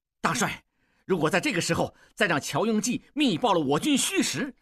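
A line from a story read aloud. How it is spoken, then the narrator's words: Loud. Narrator (Chinese): 望柏大声说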